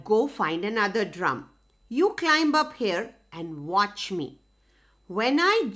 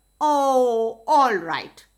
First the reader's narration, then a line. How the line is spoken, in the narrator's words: said Rabbit